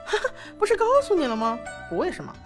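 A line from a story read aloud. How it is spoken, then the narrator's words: Laughing. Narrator (Chinese): 薛洋笑道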